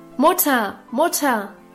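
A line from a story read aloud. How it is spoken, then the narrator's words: Calling from afar. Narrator (German): rief Guste schon von Weitem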